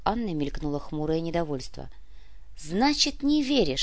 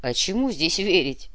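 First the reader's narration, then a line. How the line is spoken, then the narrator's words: Skeptical snort. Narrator (Russian): хмыкнул Мишка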